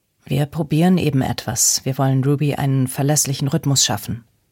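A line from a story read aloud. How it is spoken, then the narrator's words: Plain. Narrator (German): sagte Lukas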